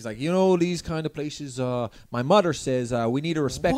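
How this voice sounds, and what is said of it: Put-on Newfoundland accent. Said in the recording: “This is my Newfoundland accent. ... Really committing.”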